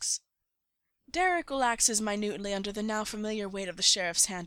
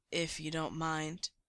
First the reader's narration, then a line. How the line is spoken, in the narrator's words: he answers quietly